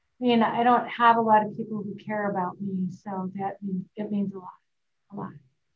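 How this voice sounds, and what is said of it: Choked-up, emotional voice. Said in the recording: “I'm getting a little choked up,”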